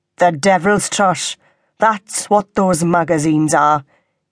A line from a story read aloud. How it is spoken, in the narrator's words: Ivor intoned, as though he was not listening to a word Sarah said